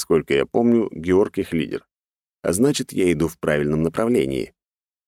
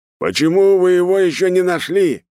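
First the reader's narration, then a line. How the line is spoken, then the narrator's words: Little man shouting. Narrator (Russian): кричал мужичок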